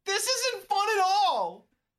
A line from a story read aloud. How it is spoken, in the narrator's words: You wail